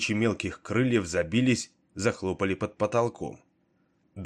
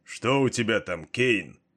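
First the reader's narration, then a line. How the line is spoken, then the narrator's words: Distant roar. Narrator (Russian): проревел от завала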